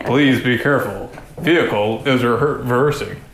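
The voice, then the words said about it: American man's voice, vehicle announcement. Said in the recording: “Where did that voice come from? ... there's a little man underneath my coat. And he's an American man.”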